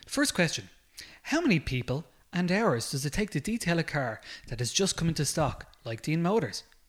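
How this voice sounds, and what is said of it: Radio announcer voice. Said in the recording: “my beautiful radio voice”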